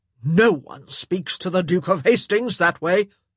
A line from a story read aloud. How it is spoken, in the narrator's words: he roared